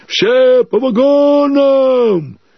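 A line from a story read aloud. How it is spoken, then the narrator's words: Crowd shouting. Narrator (Russian): люди с фонарями, закричали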